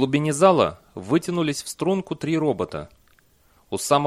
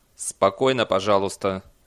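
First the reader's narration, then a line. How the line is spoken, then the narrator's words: Dry. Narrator (Russian): сказал Бейли сухо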